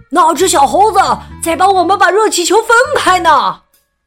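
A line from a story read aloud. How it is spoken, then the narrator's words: Shout from below. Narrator (Chinese): 有人在下面喊起来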